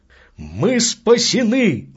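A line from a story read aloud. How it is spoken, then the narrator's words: Exclamation. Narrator (Russian): воскликнул Мускари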